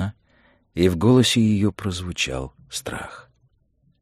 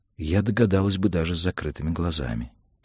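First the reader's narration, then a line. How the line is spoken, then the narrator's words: Quiet speech. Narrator (Russian): тихо проговорила она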